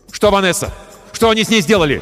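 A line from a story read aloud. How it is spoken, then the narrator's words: Shouted. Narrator (Russian): крикнул я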